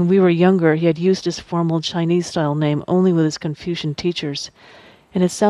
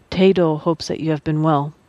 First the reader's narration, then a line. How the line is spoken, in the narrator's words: said in an even tone